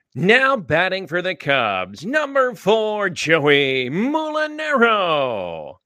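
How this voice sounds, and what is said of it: Ballpark PA announcer voice. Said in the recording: “in your Cubs PA voice”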